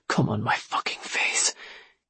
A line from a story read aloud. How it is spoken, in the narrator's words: he whispered again